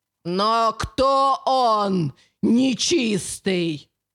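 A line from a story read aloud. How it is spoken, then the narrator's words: Outward shout, inner calm. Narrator (Russian): Выкрикнула, хотя внутри оставалась спокойной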